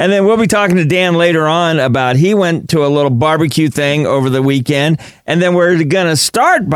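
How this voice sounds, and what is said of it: Usual voice. Nothing is said of it.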